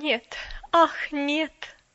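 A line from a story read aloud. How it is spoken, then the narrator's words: Mournful moan. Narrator (Russian): опять тоскливо простонала мисс Кэрю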